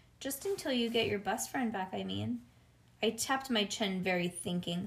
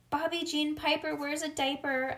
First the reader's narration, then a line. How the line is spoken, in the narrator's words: I hollered